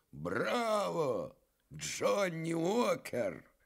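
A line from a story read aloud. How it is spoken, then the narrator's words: Hoarse admiring familiar voice. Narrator (Russian): чей-то сиплый восхищенный голос фамильярно произнес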